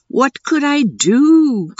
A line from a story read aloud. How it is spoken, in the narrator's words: cried the young man